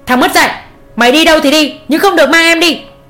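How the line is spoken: Loud shout. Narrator (Vietnamese): Ông Tuấn quát lớn

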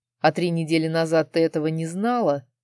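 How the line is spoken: Softened, mocking question. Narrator (Russian): Сменив гнев на милость, спросил я насмешливо

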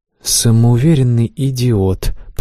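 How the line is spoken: Hissed through teeth. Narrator (Russian): процедила сквозь зубы Аманда

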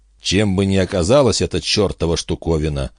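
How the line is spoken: Muttered under breath. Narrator (Russian): пробормотал он тебе под нос

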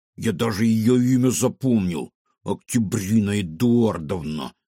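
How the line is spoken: Said through teeth. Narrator (Russian): процедил кефир

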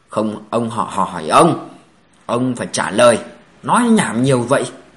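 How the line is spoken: Loud, exasperated. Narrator (Vietnamese): Khang Tiểu Bắc nhịn không được lớn tiếng nói

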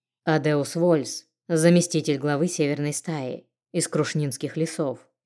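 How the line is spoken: Icy tone, werewolf. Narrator (Russian): ледяным тоном произнес оборотень

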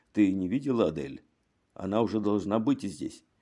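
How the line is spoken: Quiet question. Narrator (Russian): тихонько спрашивал у какой-то женщины

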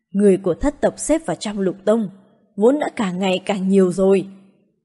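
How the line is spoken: Quiet voice. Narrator (Vietnamese): Tông chủ Mộ Kiếm Tông nhỏ giọng nói

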